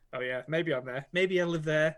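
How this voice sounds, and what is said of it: Put-on Liverpudlian accent. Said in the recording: “That was a good Liverpudlian accent”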